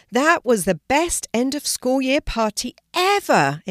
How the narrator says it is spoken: exclaimed Hazel

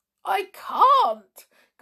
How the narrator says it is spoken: gasped poor Joe

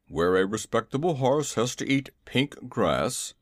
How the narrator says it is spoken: he grumbled

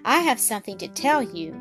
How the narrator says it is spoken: Travilla said softly

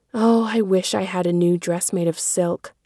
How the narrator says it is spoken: sighed Meg

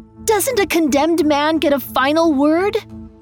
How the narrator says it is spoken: She called out to her father

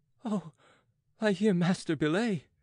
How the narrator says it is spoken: he groaned

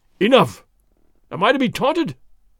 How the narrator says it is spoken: the big sergeant cried

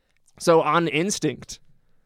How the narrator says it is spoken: I shouted it really loudly

